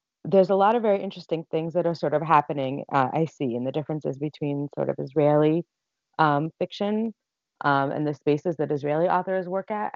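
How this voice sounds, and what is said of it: American accent. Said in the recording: “by my accent, you can tell I'm originally American.”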